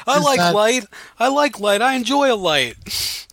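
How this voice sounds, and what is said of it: Impression of Brett Kavanaugh. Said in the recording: “That's my Kavanaugh impersonation.”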